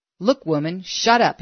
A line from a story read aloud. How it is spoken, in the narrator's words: he snapped